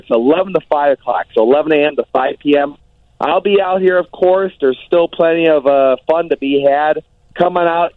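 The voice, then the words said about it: Strained voice, losing his voice. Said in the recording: “I don't know if you can tell. I'm kind of losing my voice already after 2 days.”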